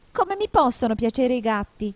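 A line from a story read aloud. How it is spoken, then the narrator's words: Shrill indignant mouse. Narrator (Italian): domandò il topo con voce stridula e sdegnata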